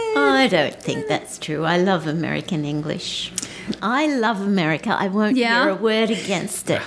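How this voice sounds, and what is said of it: Australian accent. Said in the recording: “this accent ... Please be your wonderful Australian self.”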